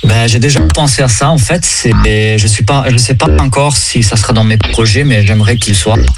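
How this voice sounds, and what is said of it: Slight Italian accent in French. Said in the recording (French): “avec ce petit accent italien”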